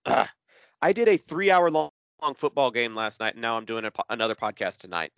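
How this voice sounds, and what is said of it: Worn-out, strained voice. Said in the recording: “my voice is uh, is about to give out.”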